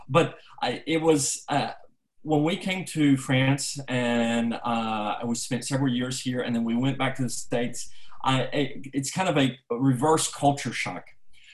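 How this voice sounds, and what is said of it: American English accent. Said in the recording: “I have an American accent.”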